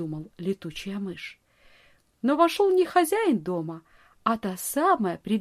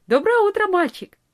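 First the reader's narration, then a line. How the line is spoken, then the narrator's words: Cheerful. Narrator (Russian): весело сказала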